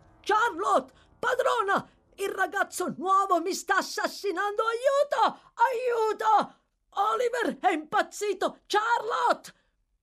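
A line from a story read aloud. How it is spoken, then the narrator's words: Screaming. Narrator (Italian): urli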